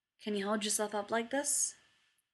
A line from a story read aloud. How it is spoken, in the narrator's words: Jared asks, voice a low, wrecked murmur